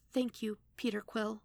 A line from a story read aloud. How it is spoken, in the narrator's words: Darina whispered after him